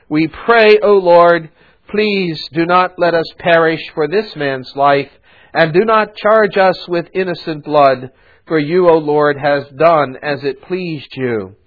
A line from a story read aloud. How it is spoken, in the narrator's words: they cried out to the Lord and said